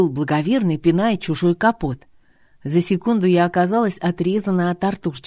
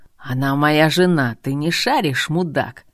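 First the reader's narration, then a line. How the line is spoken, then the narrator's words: Husband wheezing hoarsely. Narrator (Russian): хрипел муж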